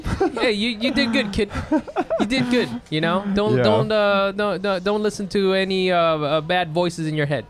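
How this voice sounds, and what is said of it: Weird put-on Midwest accent. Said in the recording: “I have a weird accent now ... you have like a weird Midwest accent”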